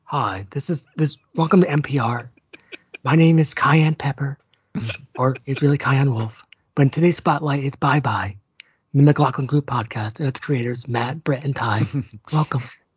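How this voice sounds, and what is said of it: Mock public radio announcer voice. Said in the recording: “you could do your NPR voice”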